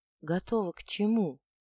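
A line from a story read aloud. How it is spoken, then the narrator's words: Gentle, polite, smiling. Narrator (Russian): Лорд-ректор улыбнулся, мягко, вежливо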